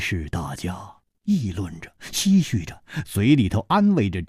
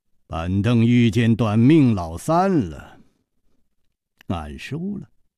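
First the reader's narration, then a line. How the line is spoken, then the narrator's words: Calm, smiling. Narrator (Chinese): 张孝林面不改色，笑道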